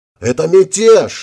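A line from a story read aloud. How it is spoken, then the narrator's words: Yelling. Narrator (Russian): заорал председатель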